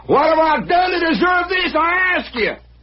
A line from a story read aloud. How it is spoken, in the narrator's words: hollering